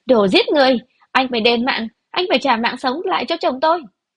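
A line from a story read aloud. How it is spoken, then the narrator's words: Loud distraught shout. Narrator (Vietnamese): Triệu Thục Hoa loạng choạng đi về phía Đường Văn Tiêu quát lớn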